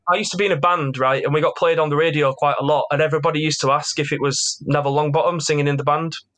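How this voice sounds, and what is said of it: Yorkshire accent. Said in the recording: “the only person in the world with a Yorkshire accent, apparently.”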